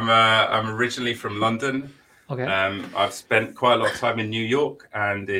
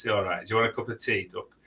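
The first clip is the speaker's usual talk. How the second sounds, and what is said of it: Put-on Yorkshire accent. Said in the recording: “Sheffield, which is in the UK. It's in Yorkshire, where they talk like this.”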